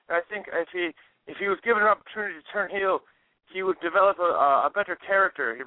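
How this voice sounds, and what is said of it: Bad put-on Irish accent. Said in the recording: “That is the worst Irish accent I've ever heard in my entire life.”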